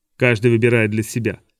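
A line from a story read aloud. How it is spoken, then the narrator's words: Old man, dry. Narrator (Russian): сказал старик сухо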